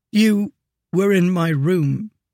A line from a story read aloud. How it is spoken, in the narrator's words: he said thickly